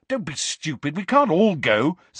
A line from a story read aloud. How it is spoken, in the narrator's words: said Harry angrily